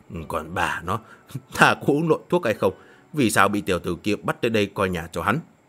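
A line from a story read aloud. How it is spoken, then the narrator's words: Puzzled muttering. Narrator (Vietnamese): Yêu Nhược Tiên lẩm bẩm, dường như không nghĩ ra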